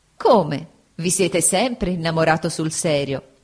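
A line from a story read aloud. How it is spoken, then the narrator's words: Laughing woman. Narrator (Italian): disse Agnese, sempre ridendo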